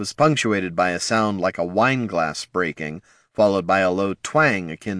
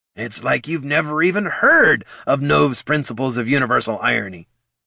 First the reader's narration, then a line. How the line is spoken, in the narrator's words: grumbled Bert